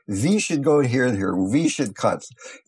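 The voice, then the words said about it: Imitated thick German accent. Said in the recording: “a fairly thick German accent ... I'm not doing it too humorously ... doing the German accent”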